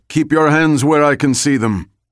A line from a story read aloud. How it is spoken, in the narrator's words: The guy with the gun called out